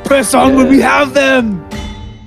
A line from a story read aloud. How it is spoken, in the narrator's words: he shouts out